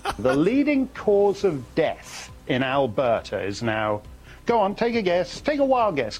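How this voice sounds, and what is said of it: British accent. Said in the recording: “a guy with an accent from our sister station in the UK”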